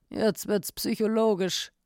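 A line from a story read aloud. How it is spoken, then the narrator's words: Inspector growling. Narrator (German): knurrte der Inspektor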